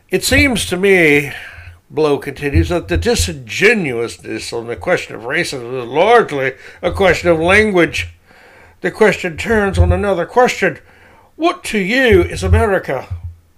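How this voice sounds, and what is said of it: Disdainful put-on reading voice. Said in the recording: “this is not Charles Blow's accent. I'm just trying to use a voice that speaks to the utter disdain Blow has for logic and reason and facts”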